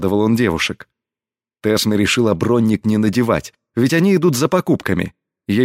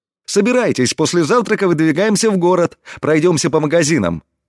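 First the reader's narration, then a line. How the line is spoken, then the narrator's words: Cheerful. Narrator (Russian): весело произнес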